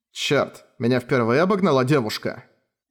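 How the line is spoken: Grumble. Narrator (Russian): пробурчал Тэдзука

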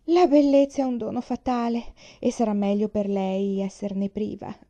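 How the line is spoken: Moaned. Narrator (Italian): gemette zia Nina

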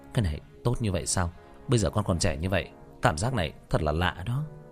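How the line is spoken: Twitching mutter. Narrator (Vietnamese): Diệp Thiếu Dương co giật lẩm bẩm

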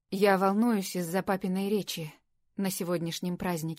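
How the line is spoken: Plain. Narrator (Russian): сказал он

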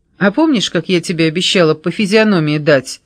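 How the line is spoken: Loud laughter. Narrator (Russian): хохотала Александра

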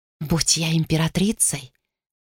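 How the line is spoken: Whisper. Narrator (Russian): прошептала Думаи

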